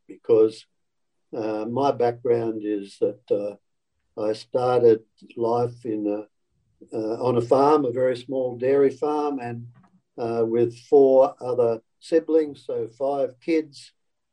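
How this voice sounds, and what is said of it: Country Australian accent. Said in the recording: “sorry about this funny accent. Hope you can all understand. It's a pretty typical country Australian accent”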